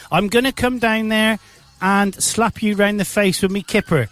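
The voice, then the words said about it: Put-on Cockney accent. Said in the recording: “Cockney accent.”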